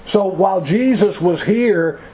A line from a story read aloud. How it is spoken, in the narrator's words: Jesus cried